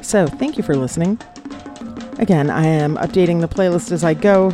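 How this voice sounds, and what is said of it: Groggy, sleepy-sounding voice. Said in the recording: “I have not yet drunk my coffee. You can probably tell it in my voice.”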